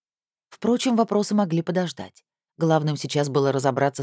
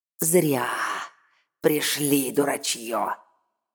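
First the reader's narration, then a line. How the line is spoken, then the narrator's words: Creaky voice. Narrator (Russian): проскрипела недавняя жертва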